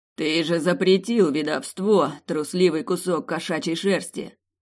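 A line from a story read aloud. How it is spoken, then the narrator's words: Barking. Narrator (Russian): рявкнул Сорин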